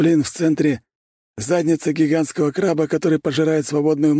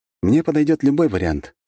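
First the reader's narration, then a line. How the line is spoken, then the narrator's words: Calm. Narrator (Russian): спокойно ответил я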